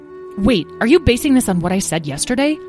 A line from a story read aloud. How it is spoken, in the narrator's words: Tom exclaimed